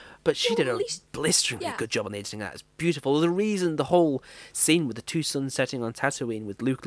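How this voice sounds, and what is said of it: Usual voice. Nothing is said of it.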